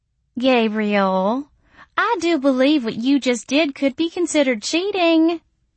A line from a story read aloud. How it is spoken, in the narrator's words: Missy said, her voice teasing and pouting